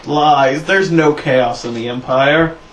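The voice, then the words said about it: Sarcastic delivery. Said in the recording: “That was sarcasm,”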